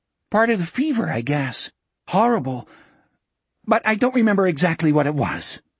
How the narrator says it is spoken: he added sharply, as if Jack might ask him this at any moment

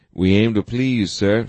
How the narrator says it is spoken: Sanchez replied nervously

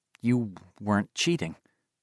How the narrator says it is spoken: he mumbled

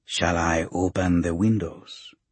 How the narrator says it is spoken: His whisper is like bamboo scraping over sand

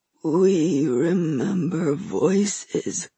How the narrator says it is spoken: Phelan said slowly

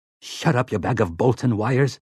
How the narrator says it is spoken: Sleitman snarled

